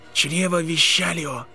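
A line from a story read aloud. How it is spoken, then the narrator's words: Whispered. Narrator (Russian): прошептал Невилл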